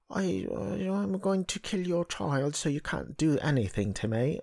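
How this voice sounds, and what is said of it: Mock British accent imitating Joey King. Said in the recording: “she's putting on a British accent too. Joey King.”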